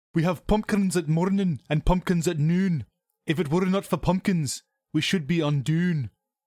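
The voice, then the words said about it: Put-on Scottish accent. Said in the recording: “I'm going to read this in a Scottish accent because I feel like it works better that way ... Is that why you did the Scottish accent?”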